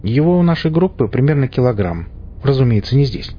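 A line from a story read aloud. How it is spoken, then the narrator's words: Snorting chuckle. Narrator (Russian): хмыкнул я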